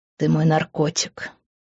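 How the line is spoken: Whisper. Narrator (Russian): прошептал он

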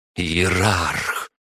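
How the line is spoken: Growl. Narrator (Russian): прорычала графиня

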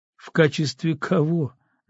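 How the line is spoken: Mocking question. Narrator (Russian): насмешливо спросил Дзюба

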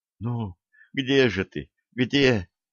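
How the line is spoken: Girl's quiet moan. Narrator (Russian): тихо простонала девушка

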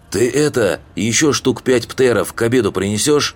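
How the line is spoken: Orc shouting after someone. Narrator (Russian): крикнул орк вслед

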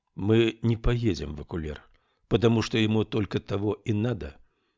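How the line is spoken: Calm explaining. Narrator (Russian): спокойно объяснил Адамберг

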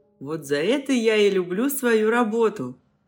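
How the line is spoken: Short chuckle. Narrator (Russian): хохотнул Гриша

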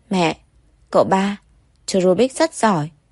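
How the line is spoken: Excited child laughing. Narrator (Vietnamese): Phi Phi vừa cười vừa vui vẻ, nói bằng một giọng phấn khích

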